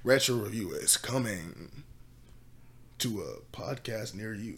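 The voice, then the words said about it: Movie trailer announcer voice. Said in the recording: “I'm trying to do the movie voice. You know, back in the day, when you put in the VHS”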